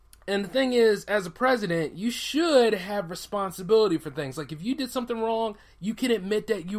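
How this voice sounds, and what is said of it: Usual voice. Nothing is said of it.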